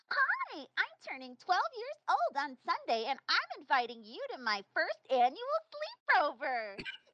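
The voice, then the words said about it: Imitates another person's voice. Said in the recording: “in your actual voice, the way you actually talk. I'm going to imitate you as best I can ... my best attempt at actually sounding like you”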